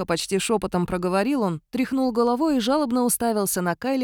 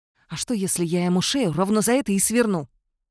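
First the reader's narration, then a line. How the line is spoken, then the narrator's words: Hissed. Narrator (Russian): прошипел Кайлин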